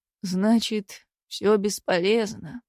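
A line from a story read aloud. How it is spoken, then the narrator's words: Dejected question. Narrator (Russian): упавшим голосом спросил лесник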